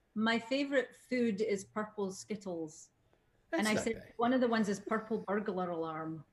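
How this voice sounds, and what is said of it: Scottish accent. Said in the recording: “because of your accent ... they're cute when they're said with a Scottish accent”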